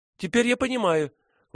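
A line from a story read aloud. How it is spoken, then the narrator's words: Joyful exclamation. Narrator (Russian): воскликнула она, радостно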